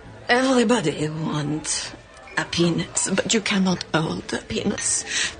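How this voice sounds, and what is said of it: Woman speaking with French accent. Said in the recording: “she has a French accent”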